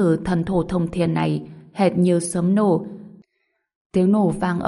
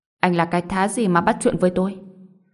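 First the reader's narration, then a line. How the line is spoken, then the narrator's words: Cold reply. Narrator (Vietnamese): Đường Băng Vân lạnh lùng đáp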